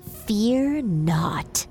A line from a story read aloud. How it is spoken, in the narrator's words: The snake hissing, saying